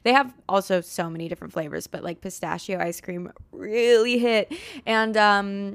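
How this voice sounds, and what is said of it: Usual voice. Nothing is said of it.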